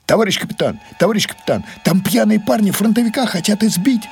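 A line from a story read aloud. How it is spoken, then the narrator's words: Agitated speech. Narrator (Russian): заговорила Люба взволнованно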